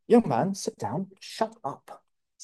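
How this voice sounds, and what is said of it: Attempted British accent. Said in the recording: “British. ... I can't say it with that accent, but yes. ... Is that pretty good?”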